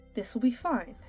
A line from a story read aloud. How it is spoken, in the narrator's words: replied quickly